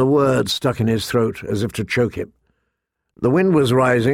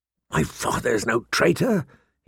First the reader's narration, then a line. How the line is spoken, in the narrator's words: he said hoarsely